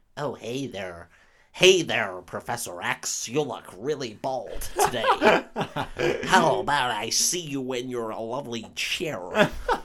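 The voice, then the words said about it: Mock American accent impression. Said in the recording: “Is she putting on an American accent? ... Oh, yes, she is. ... She sounds like an absolute Melvin.”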